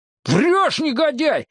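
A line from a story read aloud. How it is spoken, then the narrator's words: Yelling. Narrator (Russian): заорал я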